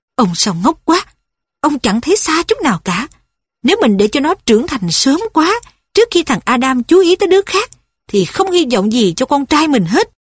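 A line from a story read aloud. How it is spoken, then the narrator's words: Soft angry. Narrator (Vietnamese): bà nói khẽ giận dữ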